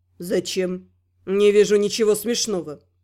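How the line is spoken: Calm reply. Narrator (Russian): спокойно ответил Эсгал

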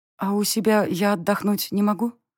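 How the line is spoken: Glum question. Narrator (Russian): Уныло поинтересовалась я

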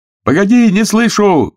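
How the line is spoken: Telephonist shouting into phone. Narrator (Russian): кричал в трубку телефонист

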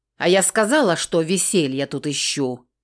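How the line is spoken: Growl. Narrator (Russian): рыкнула

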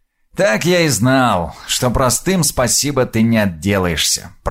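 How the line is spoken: Grumbled. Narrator (Russian): проворчал Крув

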